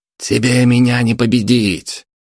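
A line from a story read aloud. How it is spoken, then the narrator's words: Shout. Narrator (Russian): крикнул Дмитрий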